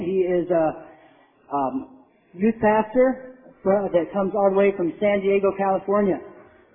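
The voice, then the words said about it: Hoarse, strained failing voice. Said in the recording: “losing my voice.”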